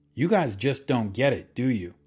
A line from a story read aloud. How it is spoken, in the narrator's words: snapped